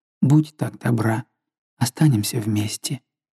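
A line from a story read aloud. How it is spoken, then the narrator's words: Tender, sorrowful. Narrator (Russian): сказал ласково и опечаленно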